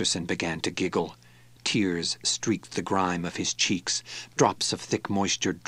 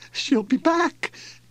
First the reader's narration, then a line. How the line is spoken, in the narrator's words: Masterson quavered